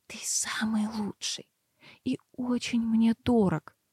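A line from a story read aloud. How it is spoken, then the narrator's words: Passionate whisper. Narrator (Russian): горячо прошептала я в шею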